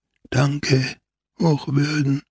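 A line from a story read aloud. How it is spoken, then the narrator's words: Whisper. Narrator (German): flüsterte er zum Priesterlein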